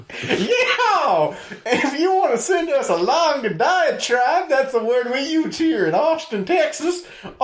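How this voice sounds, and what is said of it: Exaggerated put-on Cajun accent. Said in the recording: “My accent might make it hard to hear me. I'm keep slipping into Cajun.”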